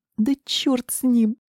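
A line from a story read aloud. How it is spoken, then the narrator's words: Tearful. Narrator (Russian): сквозь слезы сказала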